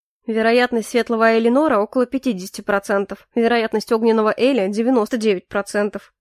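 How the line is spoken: Amused snort. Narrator (Russian): хмыкнул Эрик

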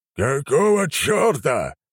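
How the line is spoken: Roar. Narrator (Russian): взревел Нахимов

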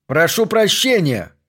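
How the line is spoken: Loud bark. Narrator (Russian): гаркнул Смитбек

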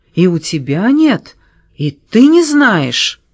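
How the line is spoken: Breaking, tearful shouting. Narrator (Russian): Срывающимся голосом, в котором уже слышались слезы, она кричала

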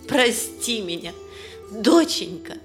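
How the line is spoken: Bitter sobbing. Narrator (Russian): горько рыдает, повторяя

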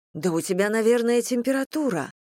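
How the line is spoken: Exclaimed. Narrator (Russian): воскликнула

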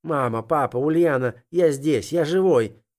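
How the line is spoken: Hopeful shout. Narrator (Russian): закричал я, надеясь обнять близких мне людей

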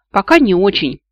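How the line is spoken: Gloating snort. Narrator (Russian): злорадно хмыкнул золотой

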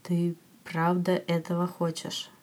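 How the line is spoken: Slow. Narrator (Russian): медленно произносит он

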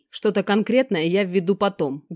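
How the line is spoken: Rough growl. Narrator (Russian): грубо прорычал друг

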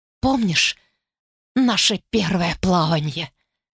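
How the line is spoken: Hoarse rasp. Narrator (Russian): прохрипела она

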